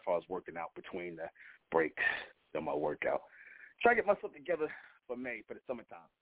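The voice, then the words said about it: Out of breath speaker. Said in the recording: “I'm a little out of breath. ... let me catch my breath”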